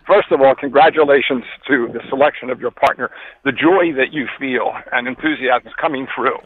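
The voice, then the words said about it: Out of breath while talking. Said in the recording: “I'm walking right now, so if I sound out of breath”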